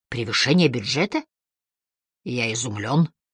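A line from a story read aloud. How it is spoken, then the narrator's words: Dryly said. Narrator (Russian): сухо проговорил Харри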